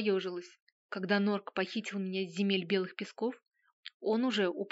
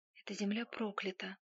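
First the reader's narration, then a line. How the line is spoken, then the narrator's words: Quiet, to herself. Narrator (Russian): тихо произнесла сама себе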